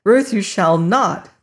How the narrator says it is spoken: cried the man

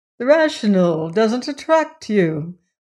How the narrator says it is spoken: Lefferts went on cheerfully

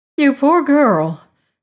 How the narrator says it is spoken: cried the harvester

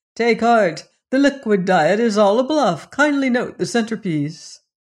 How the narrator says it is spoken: he only laughed, saying

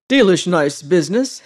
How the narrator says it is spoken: he said

